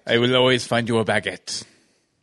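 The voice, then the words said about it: Put-on accent, Prince Charming voice. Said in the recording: “I don't know why I'm speaking with an accent for charming”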